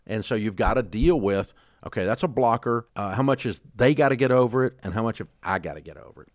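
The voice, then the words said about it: Slight Southern US accent. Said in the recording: “I have a Southern accent ... I got rid of about 80% of my country fried redneck accent. I kept a little for flavor”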